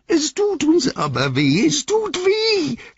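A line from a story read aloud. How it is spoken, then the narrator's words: Croaked. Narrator (German): krächzte Gollum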